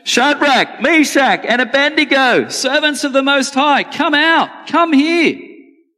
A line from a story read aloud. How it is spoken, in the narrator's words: Then Nebuchadnezzar came as close as he could to the door of the flaming furnace and shouted